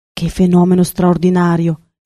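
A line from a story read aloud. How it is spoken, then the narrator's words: Exclaimed. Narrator (Italian): esclamò il professore di ornitologia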